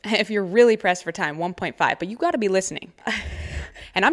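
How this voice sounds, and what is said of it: Usual voice. Nothing is said of it.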